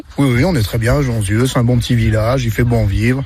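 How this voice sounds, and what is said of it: Slight regional Loire French accent. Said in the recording (French): “un petit accent d'ici ... Ouais, un petit peu, ouais, quand même ... ça s'entend ... l'accent de la Loire”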